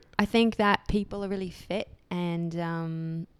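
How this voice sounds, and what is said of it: Weak put-on British accent, almost Australian. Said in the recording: “I do a little British accent. It's not very good ... That's Australian almost. ... I don't have the best accent.”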